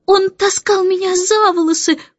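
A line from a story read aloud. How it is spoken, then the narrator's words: Sobbing. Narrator (Russian): всхлипывала Джейн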